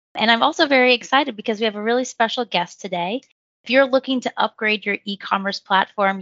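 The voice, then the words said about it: Slightly raspy voice. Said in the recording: “I'm sorry for a little bit of a raspy voice. I'm recovering from being sick”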